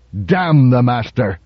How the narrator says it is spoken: Donovan spat

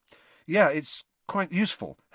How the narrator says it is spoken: Harry said

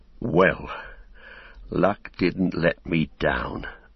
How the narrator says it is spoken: muttered Sam

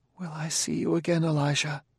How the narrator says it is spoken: Bailey said sadly

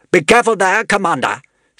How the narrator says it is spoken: said Inkanzo sharply

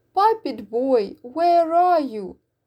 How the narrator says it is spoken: cried

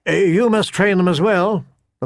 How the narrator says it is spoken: the father said

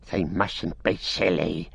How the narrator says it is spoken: he hissed

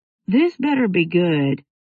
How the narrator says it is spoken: Jake said in a scratchy sleep rumble

